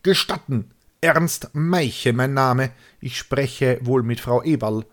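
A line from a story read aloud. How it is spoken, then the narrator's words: Almost bellowed. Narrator (German): brüllte beinahe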